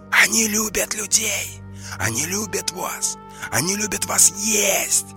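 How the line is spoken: Hissing inner voice. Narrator (Russian): прошипел голос в голове Мурмана

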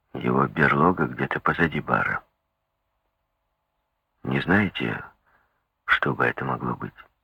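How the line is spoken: Quiet question. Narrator (Russian): тихо спросил Феннер

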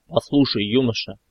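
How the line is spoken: Sharp, clipped military voice. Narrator (Russian): Резко и чеканя слова, будто шаг по плацу отбивая, ответил генерал

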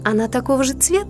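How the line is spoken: Laughing. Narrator (Russian): рассмеялась девушка

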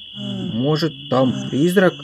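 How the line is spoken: Half frightened, half excited question. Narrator (Russian): Не то испуганно, не то обрадованно спросила Соня

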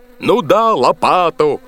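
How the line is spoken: Bellowed. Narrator (Russian): заорал боцман

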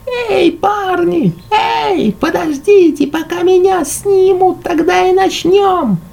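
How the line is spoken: Shouting. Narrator (Russian): кричал Бертен

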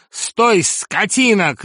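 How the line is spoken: Shouting. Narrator (Russian): кричал господин

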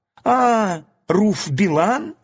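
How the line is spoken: Exclaimed. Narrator (Russian): воскликнул низенький толстый король Барбеда

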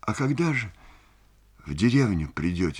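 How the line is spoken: Quiet question. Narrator (Russian): спрашивает она тихо

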